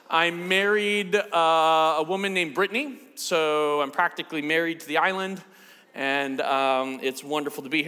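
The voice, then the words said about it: American accent. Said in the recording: “I'm from the States, as you can tell. I've got a weird accent”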